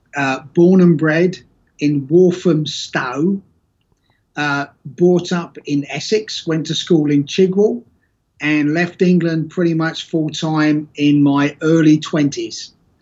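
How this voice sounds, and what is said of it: English accent in an American speaker. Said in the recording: “a proud American with a funny accent”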